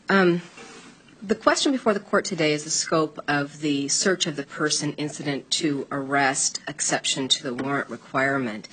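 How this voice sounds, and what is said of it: Congested, stuffy voice. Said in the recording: “I apologize, I have a bit of a cold this morning”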